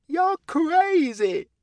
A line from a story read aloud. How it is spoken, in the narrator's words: the man cried, casting a fearful glance